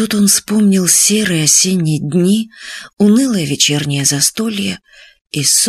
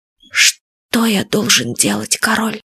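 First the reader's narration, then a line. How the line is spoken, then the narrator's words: Quiet question. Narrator (Russian): Сет Фадейк тихо спросил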